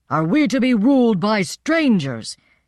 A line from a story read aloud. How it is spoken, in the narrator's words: shouted